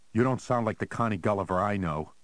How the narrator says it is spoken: Harry said more sharply than he had intended

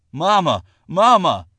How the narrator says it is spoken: John Harden cried out

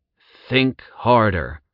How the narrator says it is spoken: Zack growled

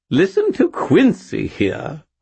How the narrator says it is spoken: the skull burbled, giggling

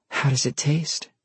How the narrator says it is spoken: she asked breathlessly

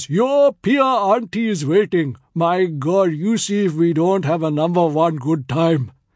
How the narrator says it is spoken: Hanif roars

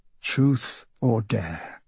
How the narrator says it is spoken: he mutters to himself

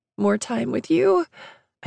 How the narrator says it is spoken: croaked out, tears leaking down my face

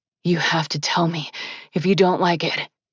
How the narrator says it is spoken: he rasped

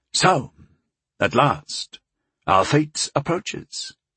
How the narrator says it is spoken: Kusi murmured fatalistically

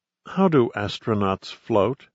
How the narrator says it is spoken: Steffi said quietly

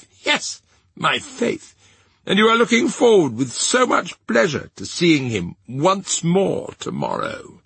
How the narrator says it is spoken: The amiable Vengeance added with a laugh

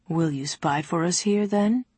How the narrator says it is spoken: He asked dryly

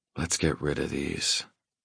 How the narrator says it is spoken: I murmur

